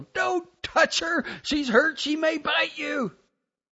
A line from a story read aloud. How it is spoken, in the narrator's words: my sister yelled